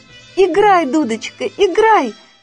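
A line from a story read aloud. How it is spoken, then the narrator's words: Shouting. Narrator (Russian): закричала Женя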